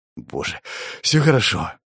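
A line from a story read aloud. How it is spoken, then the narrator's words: Breathed out. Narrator (Russian): выдохнул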